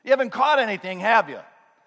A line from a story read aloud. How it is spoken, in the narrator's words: he must have been yelling because this is over 100 yards of open water